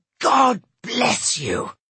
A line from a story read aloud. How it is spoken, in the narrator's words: he roared at the baffled passers-by